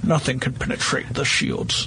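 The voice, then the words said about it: Bad Admiral Ackbar impression. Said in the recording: “that was terrible. that was like the world's worst Admiral Ackbar accent”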